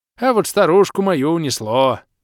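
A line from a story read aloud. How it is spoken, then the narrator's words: Oddly joyful. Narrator (Russian): Так радостно сказал, будто только этого момента всю жизнь не ждал, когда его старушку унесет бурный водный поток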